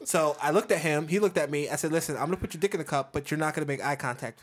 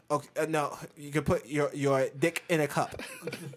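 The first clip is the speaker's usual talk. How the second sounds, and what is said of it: Impression of a strongly accented man. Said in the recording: “I know that you have a strong accent ... damn good impression.”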